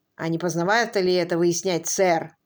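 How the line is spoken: Plain. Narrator (Russian): спросил Фрэнк Эббот

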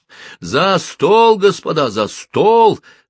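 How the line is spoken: Midshipman shouting. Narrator (Russian): закричал гардемарин

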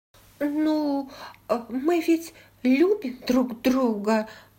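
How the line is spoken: Somewhat uncertain. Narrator (Russian): произнесла она, хотя ее голос прозвучал несколько неуверенно для такого страстного признания

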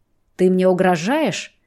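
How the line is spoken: Words through teeth. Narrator (Russian): цедит сквозь зубы

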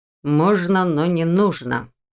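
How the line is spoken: Wry snort. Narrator (Russian): хмыкнул Ваня

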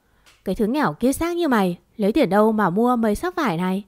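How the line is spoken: Sneering, contemptuous. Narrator (Vietnamese): nói chuyện mỉa mai khi miệt như bà Thỏa

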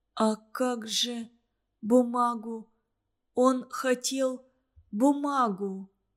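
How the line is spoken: Bewildered whisper. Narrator (Russian): растерянно прошептала Зорька

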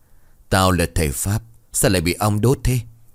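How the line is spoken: Groaning complaint. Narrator (Vietnamese): Phẩu Thư vừa rên

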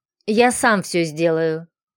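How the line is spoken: Deep displeased bass. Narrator (Russian): забасил недовольным тоном белобрысый дядька

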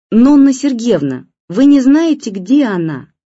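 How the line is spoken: Shouting, mother. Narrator (Russian): крикнула мама

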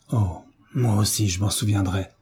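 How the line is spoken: Murmur trembling with rage. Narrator (French): murmura Frédéric d'une voix tremblante de rage

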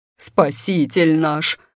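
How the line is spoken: Deep-voiced yell. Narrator (Russian): басом завопила она

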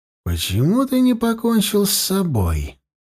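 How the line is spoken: Said thoughtfully. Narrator (Russian): задумчиво произнес

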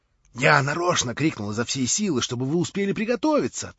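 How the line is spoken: Hurried naive whisper. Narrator (Russian): торопливо, с удивительной наивностью прошептал Петр Степанович

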